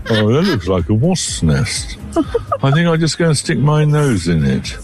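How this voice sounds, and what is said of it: Voices a dog's thoughts. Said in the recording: “Everyone does a dog voice. Do you have one with Derek? ... I do one when he's wandering around about to do something stupid.”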